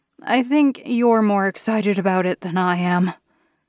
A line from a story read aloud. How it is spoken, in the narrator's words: I chuckled